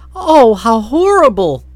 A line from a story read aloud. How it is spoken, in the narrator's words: cried the girl, her voice breaking